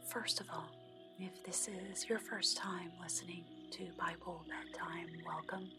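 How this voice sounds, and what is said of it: Soft, gentle speaking voice. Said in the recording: “I do this in a soft voice to help lull you to sleep”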